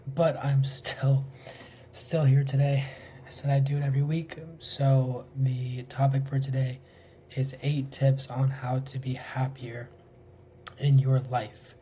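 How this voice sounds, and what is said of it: Hoarse, nearly lost voice. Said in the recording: “My voice is gone because I'm sick. I sound like a freaking dead horse”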